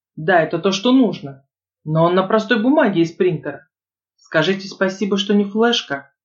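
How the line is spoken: Snapped. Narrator (Russian): огрызнулся Арман

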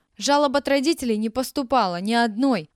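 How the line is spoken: Yelling. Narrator (Russian): вопила Елена Ивановна

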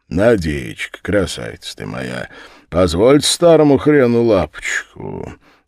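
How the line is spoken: Laughing. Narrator (Russian): смеясь

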